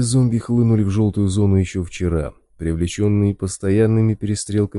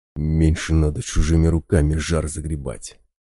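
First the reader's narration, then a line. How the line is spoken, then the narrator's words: Angry whisper. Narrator (Russian): зло прошептал медведь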